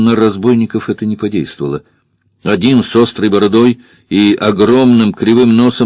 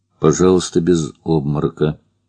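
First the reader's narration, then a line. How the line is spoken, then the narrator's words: Quiet. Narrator (Russian): тихо сказал Фандорин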